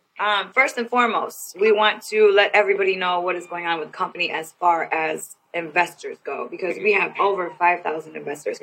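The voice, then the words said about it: Raspy, hoarse voice. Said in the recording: “I was speaking real loud earlier today, so I've kind of lost my voice. So excuse me if I sound a little raspy.”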